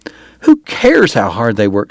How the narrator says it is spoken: she cried

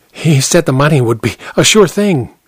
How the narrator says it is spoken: he whispered

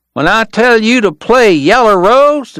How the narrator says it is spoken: the kid was yelling

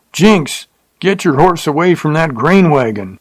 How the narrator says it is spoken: someone hollered

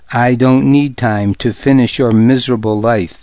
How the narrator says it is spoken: Sanut said

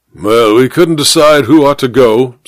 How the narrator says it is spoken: said the major gruffly

